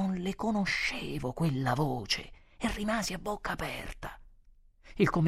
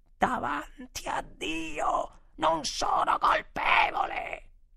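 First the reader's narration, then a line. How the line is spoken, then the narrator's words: Sudden terrible cry. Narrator (Italian): mia moglie, tutta ad un tratto, gridò con una voce terribile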